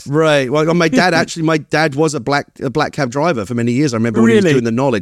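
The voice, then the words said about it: Cockney accent gone slightly transatlantic. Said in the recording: “my accent kind of reasserts itself... I have a proper working class Cockney background... sometimes people struggle to place my accent because it's gone a bit transatlantic. It's a little bit kind of neither one thing nor the other”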